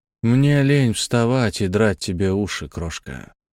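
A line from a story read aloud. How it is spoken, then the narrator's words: Sighing. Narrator (Russian): вздохнул Седьмой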